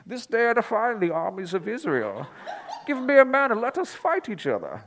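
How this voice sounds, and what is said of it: Imitates Bane's villain voice. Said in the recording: “I was doing my impression of Bane from The Dark Knight Rises ... Doesn't that sound like Bane?”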